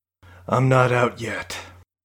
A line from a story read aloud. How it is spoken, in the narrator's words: Carradine sighed